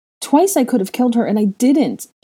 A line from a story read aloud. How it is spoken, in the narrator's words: she cried wretchedly